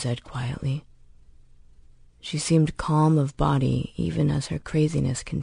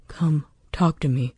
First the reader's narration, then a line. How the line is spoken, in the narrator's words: Holston said